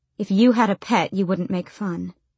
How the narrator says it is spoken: she said gloomily

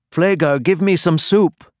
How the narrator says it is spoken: people yelled out to him from all sides

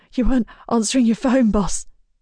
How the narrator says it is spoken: he pants

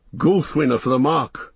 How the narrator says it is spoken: cried Eomer

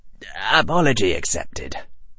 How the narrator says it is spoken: Harry said dryly

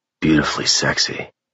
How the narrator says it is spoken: Rig added in a raspy voice

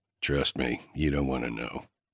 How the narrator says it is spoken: I muttered

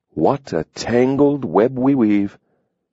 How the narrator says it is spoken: Adam drawled slowly, the hint of a smile

